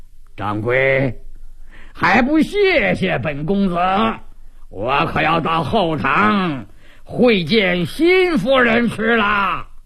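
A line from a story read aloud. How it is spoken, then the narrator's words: Loud laughter. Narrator (Chinese): 随后他大笑几声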